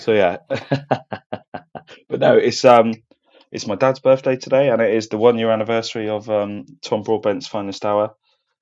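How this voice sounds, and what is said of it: Groggy, strained voice from shouting. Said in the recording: “Feeling a bit groggy today ... my voice is also suffering from shouting down the Boo Boys at the cutting ground yesterday”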